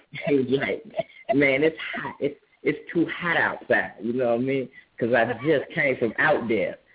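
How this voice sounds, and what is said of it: Pimp-style impression. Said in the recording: “let's hear your pimp imitation. I want to hear your pimp imitation. ... I'm gonna do my unk right here”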